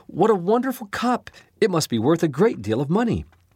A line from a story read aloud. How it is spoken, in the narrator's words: the young serving girl, exclaimed